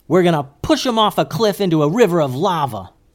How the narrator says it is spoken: yelled Goose

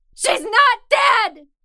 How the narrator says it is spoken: I screamed

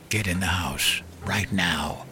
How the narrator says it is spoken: Softly, Henry said

